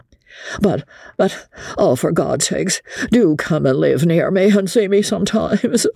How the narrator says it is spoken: whimpered the unfortunate man

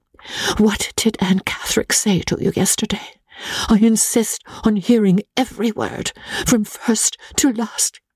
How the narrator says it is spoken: whispered to me

